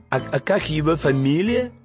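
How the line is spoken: Quiet question in ear. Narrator (Russian): тихо спросили на ухо

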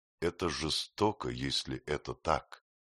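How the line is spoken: Quiet. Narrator (Russian): Афра тихо сказала

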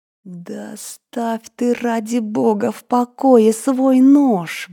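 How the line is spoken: Exasperated inner plea. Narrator (Russian): взмолилась про себя, совершенно теряя терпение

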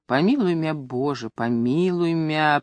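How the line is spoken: Whispered pleading. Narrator (Russian): просила она шепотом

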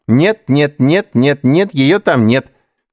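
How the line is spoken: Singsong reply. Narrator (Russian): нараспев отвечал Эдуард

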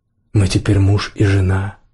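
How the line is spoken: Soft, gentle. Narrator (Russian): мягко сказала она

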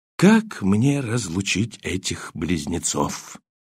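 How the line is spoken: Quiet question. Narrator (Russian): тихо спросил меня группенфюрер Таненбаум

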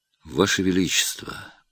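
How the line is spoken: Quiet. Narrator (Russian): тихо сказал Трубецкой

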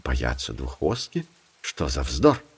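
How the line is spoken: Animals speaking quietly. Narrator (Russian): Волы и верблюд тихонько сказали

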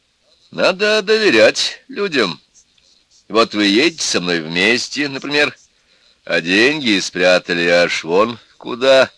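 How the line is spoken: Laughing. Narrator (Russian): Командировочный опять посмеялся

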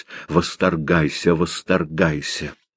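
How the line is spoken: Through teeth, holding back tears. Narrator (Russian): произнесла сквозь зубы, едва сдерживая слезы

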